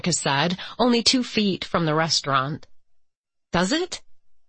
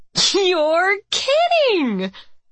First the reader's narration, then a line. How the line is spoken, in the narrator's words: Monica asked, laughing